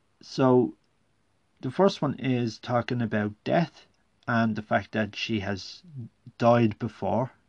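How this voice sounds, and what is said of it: Speaker's own regional accent. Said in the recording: “my accent might throw you there”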